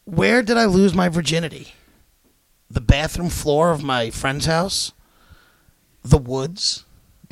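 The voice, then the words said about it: Game show host voice. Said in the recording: “Your game show voice.”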